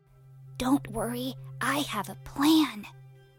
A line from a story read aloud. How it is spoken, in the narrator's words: whispered Hansel